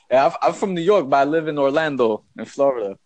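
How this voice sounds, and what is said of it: New York accent. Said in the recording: “that New York accent is so different”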